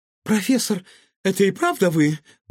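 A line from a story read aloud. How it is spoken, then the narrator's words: Rapturous exclamation. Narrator (Russian): восторженно воскликнула она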